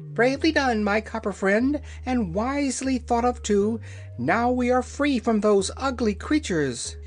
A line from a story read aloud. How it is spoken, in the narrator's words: The yellow hen gave a cackle of delight, she said